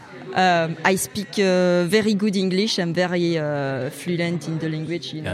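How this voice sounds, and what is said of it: French accent speaking English, throaty. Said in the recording (French): “c'est imiter l'accent du français qui parle qui parle anglais. C'est un truc que je pense que je fais assez bien ... c'est un peu de la gorge, c'est un peu parisien comme ça”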